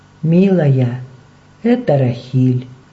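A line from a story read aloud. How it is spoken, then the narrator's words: Soft, gentle. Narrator (Russian): мягко промолвила она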